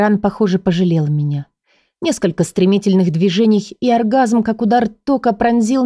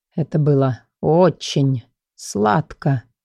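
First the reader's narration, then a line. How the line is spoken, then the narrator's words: Slow. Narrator (Russian): проговорил он медленно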